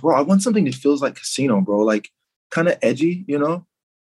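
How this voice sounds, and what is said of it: Casual imitation of a client. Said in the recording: “I'm I'm I'm doing my my impersonation.”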